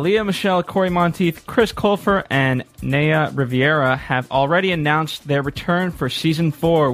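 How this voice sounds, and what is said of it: Smooth radio announcer voice. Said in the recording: “You have such a radio voice”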